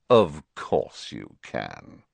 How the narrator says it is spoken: said Snape, sneering

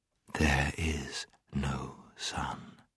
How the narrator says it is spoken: She repeated, in a softer and deeper voice

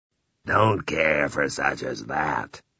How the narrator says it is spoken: Ralph said in his clotted voice

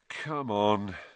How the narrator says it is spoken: said Harry wearily

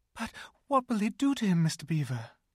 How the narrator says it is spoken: gasped Lucy

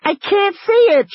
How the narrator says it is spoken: she screamed

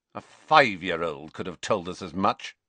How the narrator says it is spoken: sneered Snape

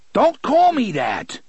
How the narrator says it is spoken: shouted

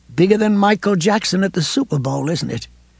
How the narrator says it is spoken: She laughed weakly

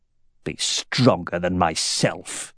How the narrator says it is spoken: he said in a sour, mocking voice

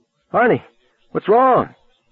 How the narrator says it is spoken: She cried

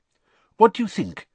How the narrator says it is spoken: he asked anxiously

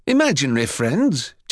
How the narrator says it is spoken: Jimmy scoffed, but not unkindly

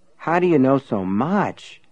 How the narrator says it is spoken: Everett asked in a dazed voice

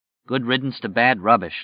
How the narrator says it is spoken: Larry said grimly

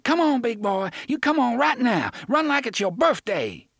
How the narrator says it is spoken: she said, and then shouted

